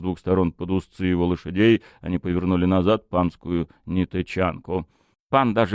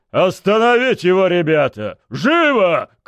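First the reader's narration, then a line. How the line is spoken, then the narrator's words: Shout. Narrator (Russian): крикнул я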